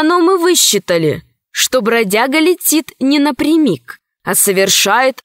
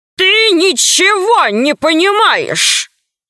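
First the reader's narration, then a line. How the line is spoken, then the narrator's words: Roaring. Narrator (Russian): взревел Громозека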